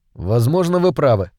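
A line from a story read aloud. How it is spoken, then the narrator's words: Dry interruption. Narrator (Russian): сухо прервал ее Байерли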